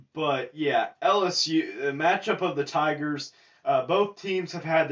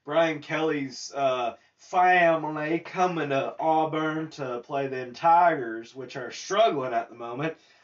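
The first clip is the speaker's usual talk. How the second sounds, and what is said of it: Put-on Southern US accent. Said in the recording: “Sorry for my southern accent there.”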